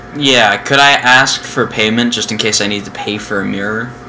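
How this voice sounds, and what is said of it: Gruff English accent drifting Scottish/Irish. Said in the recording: “he started out like as a gruff like English accent, and then it turned into... It almost sounds Scottish or Irish.”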